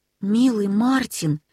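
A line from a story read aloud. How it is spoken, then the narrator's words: Tender. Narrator (Russian): сказал Нильс ласково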